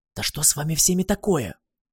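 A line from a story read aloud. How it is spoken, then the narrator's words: Whisper. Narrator (Russian): прошептала Гималая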